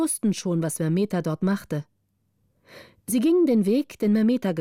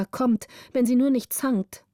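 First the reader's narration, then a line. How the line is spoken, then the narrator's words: Called out. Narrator (German): rief Gritta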